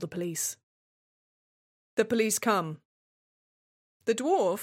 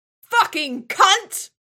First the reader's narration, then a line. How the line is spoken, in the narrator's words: The dwarf screams